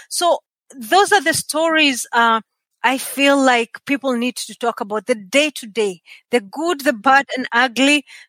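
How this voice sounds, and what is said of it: Kenyan accent. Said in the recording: “I still have the Kenyan accent”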